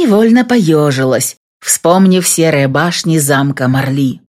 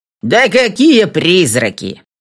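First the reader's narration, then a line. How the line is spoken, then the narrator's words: Loud bark. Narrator (Russian): гаркнул продавец овощей Том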